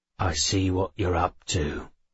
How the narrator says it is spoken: Sharon muttered at me

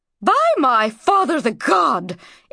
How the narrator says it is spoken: exclaimed the queen

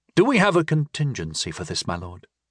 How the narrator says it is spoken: Pendennal asked

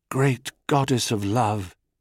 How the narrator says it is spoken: he whispered

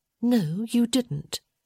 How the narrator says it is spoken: she replied, her voice quite calm

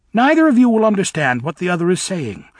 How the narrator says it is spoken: said Elphaba calmly

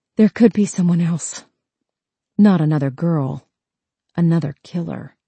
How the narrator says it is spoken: It obviously hurt to talk, but she whispered

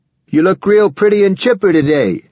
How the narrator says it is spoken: he yelled

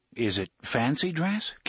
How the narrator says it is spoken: Cuthbert asked uneasily

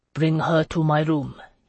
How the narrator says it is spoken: he murmured

